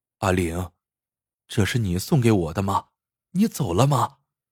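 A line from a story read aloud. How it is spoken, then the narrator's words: Murmuring to herself. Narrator (Chinese): 杨梅喃喃自语道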